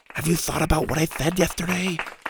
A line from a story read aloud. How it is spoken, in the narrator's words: Mac whispered loudly